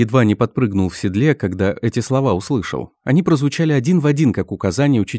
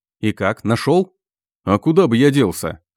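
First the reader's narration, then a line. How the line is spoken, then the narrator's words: Chuckling. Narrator (Russian): хохотнул богатырь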